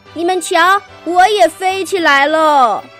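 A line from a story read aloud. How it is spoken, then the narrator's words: Happy shouting. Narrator (Chinese): 小青蛙高兴的大叫起来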